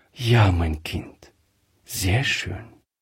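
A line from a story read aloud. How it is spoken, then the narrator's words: Soft-spoken. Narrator (German): sagte Frau Gräfir leise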